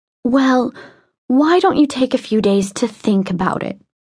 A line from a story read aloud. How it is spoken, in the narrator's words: said her mother, still in that gentle, implacable voice